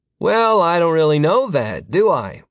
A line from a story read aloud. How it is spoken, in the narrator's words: Martin said